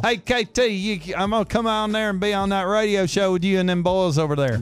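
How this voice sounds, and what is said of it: Put-on country accent. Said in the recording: “Kyle's way more country than I am.”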